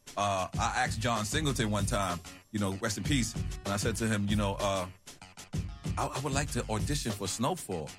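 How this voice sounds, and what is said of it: Strong New York accent. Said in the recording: “your New York accent is horrible ... you can never be from anywhere else in the world ... that's how New York I am”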